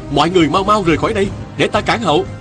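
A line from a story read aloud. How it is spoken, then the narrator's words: Urgent shout. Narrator (Vietnamese): Viên Thừa Chí vội nắm tay y kéo đến bờ tường, rồi la lên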